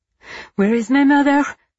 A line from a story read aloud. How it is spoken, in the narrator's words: he gasped, out of breath from sprinting